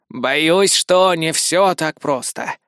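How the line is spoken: Sighing. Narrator (Russian): вздохнул Изаму

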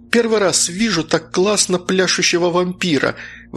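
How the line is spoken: Exclaimed. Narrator (Russian): воскликнула Фрелина

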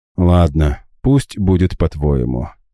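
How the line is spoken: Heavy resigned sigh. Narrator (Russian): тяжело вздохнул я

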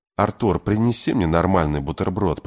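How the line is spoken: Whispered from behind. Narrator (Russian): прошептал за ее спиной Кей Овальд

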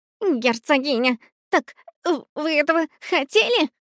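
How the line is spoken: Trembling, fearful babble. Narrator (Russian): Пролепетал кролик, мелко дрожа от страха

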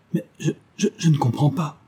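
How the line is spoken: Stammering. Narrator (French): bégaya-t-il

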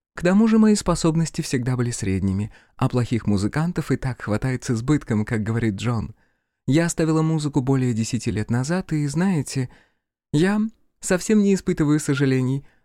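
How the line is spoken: Cheerful. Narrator (Russian): сообщила она радостно

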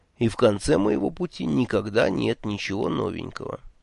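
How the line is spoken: Gloomy. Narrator (Russian): мрачно добавил

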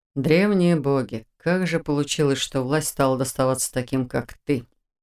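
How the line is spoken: Rueful mutter. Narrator (Russian): Сокрушенно пробормотал он

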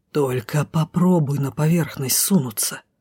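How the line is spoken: Threatening hiss. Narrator (Russian): прошипел угрожающе

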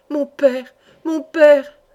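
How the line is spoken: Exclaimed. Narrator (French): s'écria Madeleine

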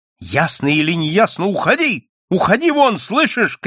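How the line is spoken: Shout. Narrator (Russian): крикнула Надя

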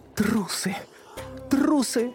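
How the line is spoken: Sobbing. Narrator (Russian): рыдала Сьюзан

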